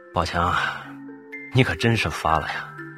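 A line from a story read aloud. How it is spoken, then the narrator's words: Sighing. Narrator (Chinese): 他不禁叹了声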